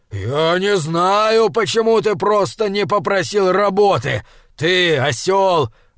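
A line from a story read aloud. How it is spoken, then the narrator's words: Growling. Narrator (Russian): рычал Фриавару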